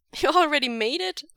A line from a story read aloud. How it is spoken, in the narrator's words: Wei Ying laughs